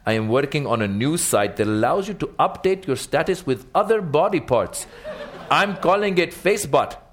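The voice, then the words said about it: Toned-down put-on ethnic accent. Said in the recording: “your ethnic accents ... I toned the accent down intentionally”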